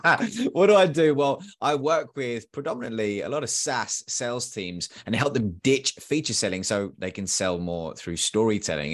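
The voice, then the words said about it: Posh-sounding British accent. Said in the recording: “who is this dude with a weird British accent? ... man, you sound so posh. You sound like the queen.”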